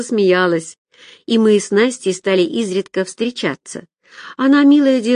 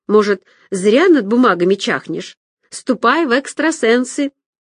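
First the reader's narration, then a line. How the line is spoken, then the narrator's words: Ringing laughter. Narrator (Russian): Настя звонко рассмеялась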